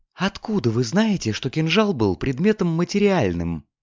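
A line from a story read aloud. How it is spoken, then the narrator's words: Frightening low whisper. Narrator (Russian): поинтересовалась госпожа Грипп, понизив голос до пугающего шепота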